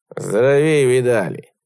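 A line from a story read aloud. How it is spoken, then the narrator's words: Gloomy old man. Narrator (Russian): мрачно сказал старичок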